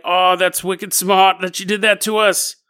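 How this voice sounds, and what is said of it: Bad put-on Boston accent. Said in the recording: “this bad accent”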